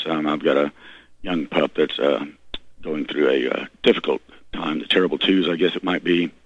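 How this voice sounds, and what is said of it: Slightly hoarse voice. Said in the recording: “I apologize for my voice. I am a little bit hoarse.”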